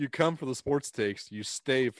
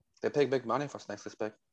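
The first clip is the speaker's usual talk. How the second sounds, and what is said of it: Bad Cajun-accented actor impression. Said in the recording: “the Jon Voight impression ... the bad Cajun Jon Voight impression”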